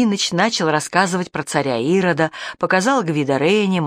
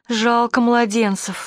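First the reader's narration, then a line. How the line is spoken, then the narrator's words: Sudden sob. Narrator (Russian): всхлипнула вдруг Даша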